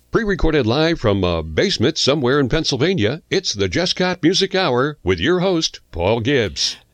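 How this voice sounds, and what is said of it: Polished radio announcer voice. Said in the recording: “That voice, that great radio voice”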